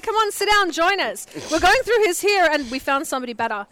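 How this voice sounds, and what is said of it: Australian accent. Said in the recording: “knock off the phony accent, baby... I can't help it. I'm from Australia.”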